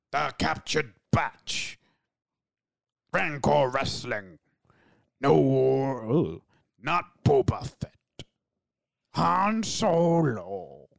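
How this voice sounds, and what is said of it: Alien crime-lord character voice. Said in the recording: “in the voice of Jabba the Hutt speaking Huttonese ... you can use that accent ... You started off pretty good ... And then you became like an epic knight”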